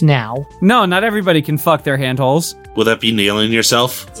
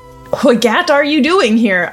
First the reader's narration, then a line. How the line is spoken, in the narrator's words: I asked him, confused